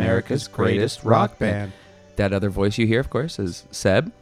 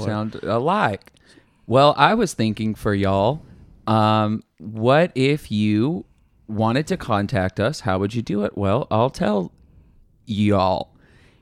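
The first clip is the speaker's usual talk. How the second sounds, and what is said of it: Slight put-on twang. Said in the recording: “I'm going to put a little twang on mine... Just a little twang.”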